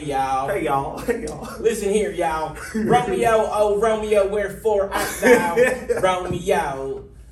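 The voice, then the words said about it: Heavy put-on Southern accent. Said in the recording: “Shakespeare in a heavy Southern accent ... That ain't it.”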